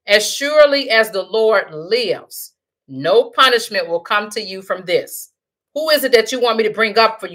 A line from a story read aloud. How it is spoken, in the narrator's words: The woman asked